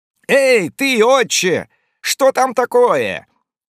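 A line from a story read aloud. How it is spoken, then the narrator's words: Shouting. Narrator (Russian): закричал один из моряков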